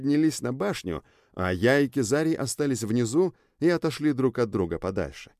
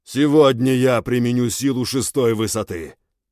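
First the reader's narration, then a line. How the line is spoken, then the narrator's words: Loud announcement. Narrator (Russian): громко объявил Кизарий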